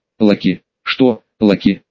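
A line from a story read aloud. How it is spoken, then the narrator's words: Explosive outburst, man. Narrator (Russian): Взорвался мужчина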